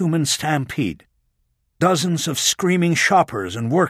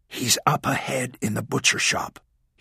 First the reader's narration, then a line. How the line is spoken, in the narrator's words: he whispered to Walling